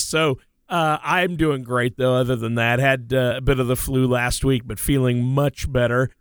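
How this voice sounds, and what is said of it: Hoarse, congested voice. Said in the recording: “forgive my voice. It's a little hoarse and congested today. ... my voice is all that counts. So it's not so good.”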